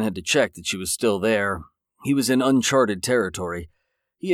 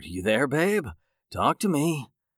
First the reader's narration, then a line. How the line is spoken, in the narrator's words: he whispered